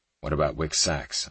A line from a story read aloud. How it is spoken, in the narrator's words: I asked Kyle